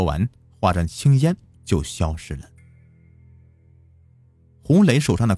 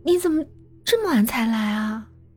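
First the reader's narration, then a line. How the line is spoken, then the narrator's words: Gentle, coy. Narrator (Chinese): 语气温柔娇憨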